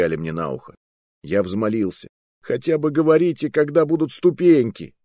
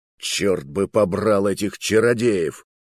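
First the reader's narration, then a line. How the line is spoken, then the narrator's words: Grumbled. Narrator (Russian): ворчал Громила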